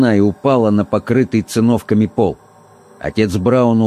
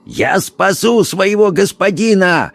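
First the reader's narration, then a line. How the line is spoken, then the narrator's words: Frenzied shouting. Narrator (Russian): кричал он, сверкая глазами, словно помешанный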